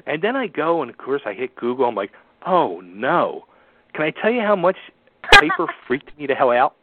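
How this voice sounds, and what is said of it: New York-sounding accent. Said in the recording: “Or maybe it's your accent. ... You sound like you're in New York.”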